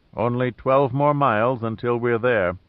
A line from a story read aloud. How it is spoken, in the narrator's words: said Ming Lin